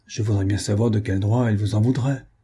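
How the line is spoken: Grumbled. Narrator (French): grommela-t-il

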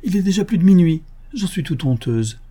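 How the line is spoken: Exclaimed. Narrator (French): s'écria Miss Dunstable

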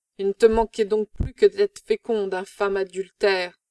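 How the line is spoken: Woman exclaiming. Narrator (French): s'écrie-t-elle

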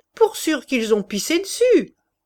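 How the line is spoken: Sneering snicker. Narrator (French): ajouta Chouteau en ricanant

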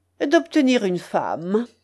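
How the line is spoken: Cold. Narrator (French): répondit froidement De Bracy

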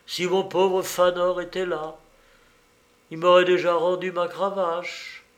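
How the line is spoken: Sighing. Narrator (French): dit Madame de Vernage en soupirant

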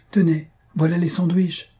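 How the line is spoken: Exclaimed. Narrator (French): s'écria Thalie

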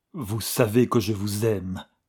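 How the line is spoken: Muffled trembling passionate voice. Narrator (French): dit-il, comme malgré lui, d'une voix sourde, tremblante et brisée de passion

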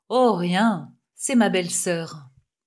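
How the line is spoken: Muffled voice. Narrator (French): dit-il d'une voix sourde

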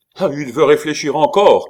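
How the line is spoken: Shouting. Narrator (French): cria Gorenflot

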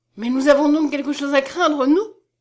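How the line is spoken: Exclaiming. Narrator (French): s'écria-t-elle encore

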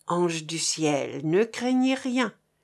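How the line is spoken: Low voice. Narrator (French): ce dernier lui dit à voix basse

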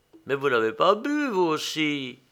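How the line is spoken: Vexed tone. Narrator (French): dit l'autre d'un ton vexé

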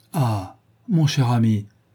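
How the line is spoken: Exclaimed. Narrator (French): s'écria Lady Narborough

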